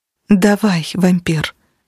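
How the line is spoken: Soft reply. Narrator (Russian): ответила так же мягко

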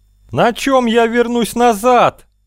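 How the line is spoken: Old bat wailing. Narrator (Russian): вопил седой нетопырь

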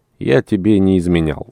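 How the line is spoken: Calm reply. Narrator (Russian): спокойно отвечал Дмитрий

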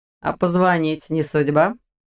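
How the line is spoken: Mocking question. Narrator (Russian): насмешливо уточнил Ваня

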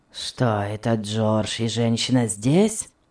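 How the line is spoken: Grumbling question. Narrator (Russian): спросил он через минуту ворчливым тоном

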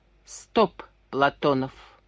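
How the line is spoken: Curt. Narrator (Russian): отрывисто сказал Комаров

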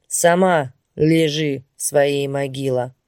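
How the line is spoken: Muffled, hollow voice. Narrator (Russian): глухо проговорила стукачка

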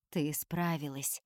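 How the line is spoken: Quiet. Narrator (Russian): тихо говорит он

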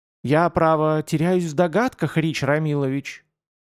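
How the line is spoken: Cooing. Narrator (Russian): проворковала Устюкина

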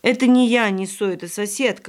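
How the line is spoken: Plain. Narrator (Russian): говорит

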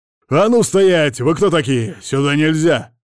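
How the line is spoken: Guard barking harshly. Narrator (Russian): рявкнул один из охранников

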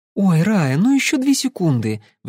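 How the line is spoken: Pleading. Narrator (Russian): взмолилась Кэсси

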